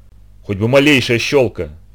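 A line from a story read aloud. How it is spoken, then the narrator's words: Sighing. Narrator (Russian): вздохнул он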